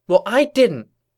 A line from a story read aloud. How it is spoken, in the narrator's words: Twilight snapped